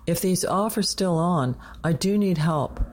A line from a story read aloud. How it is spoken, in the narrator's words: Jazz cut him off, yelling into the din of traffic